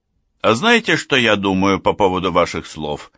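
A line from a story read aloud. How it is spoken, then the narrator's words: Angry objection. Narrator (Russian): Сердито возразил Лев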